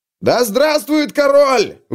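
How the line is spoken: Shouted out. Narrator (Russian): выкрикнул кто-то

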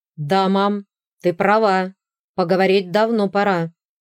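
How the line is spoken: Young man's near-growl. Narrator (Russian): практически прорычал парень

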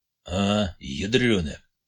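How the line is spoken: Barely audible. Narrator (Russian): ответил ему Рахматуллин, добавил еле слышно

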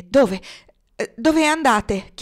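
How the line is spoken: Panting question. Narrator (Italian): chiese ansimando

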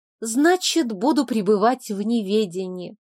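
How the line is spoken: Theatrical sigh. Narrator (Russian): театрально вздохнула

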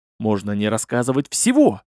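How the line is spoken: Muttering to himself. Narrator (Russian): забормотал себе под нос

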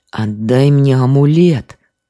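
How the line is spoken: Creature's rasp. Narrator (Russian): прохрипело это создание

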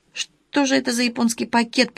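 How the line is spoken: Mutter. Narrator (Russian): пробормотала Александра

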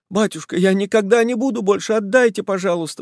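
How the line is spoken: Pleading. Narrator (Russian): взмолился Буланин

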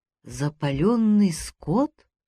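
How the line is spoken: Uncertain. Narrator (Russian): неуверенно заговорила она вслед Жабрею

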